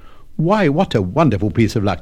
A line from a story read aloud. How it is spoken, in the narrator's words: cried